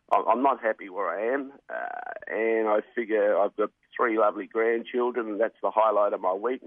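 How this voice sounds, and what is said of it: Worn-out, strained voice. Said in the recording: “My voice is not very good, Dan. It's just worn out. And between races, I've got to clear my throat.”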